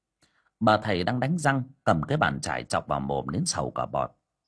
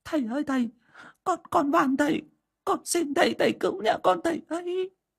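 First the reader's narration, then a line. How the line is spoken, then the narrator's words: Weeping plea. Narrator (Vietnamese): bà Hậu đã xông vào khóc lóc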